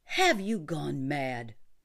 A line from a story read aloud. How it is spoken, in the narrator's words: exclaimed Scully